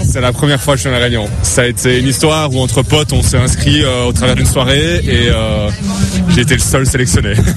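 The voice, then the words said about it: Belgian French accent. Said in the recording (French): “tu as un accent, tu es belge?”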